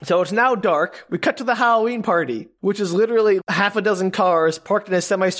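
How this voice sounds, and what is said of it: Usual voice. Nothing is said of it.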